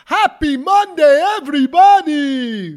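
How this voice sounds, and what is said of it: Voice like the Sesame Street Count. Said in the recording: “do an impression of him ... I know it sounds like the Count from Sesame Street. ... It's Patrice Evra.”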